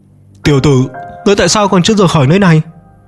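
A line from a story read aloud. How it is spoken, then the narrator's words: Worried, loud voice. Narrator (Vietnamese): Sở vô cùng lo lắng lớn tiếng nói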